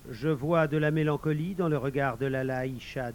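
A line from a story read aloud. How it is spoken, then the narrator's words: Plain. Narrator (French): dit le vizir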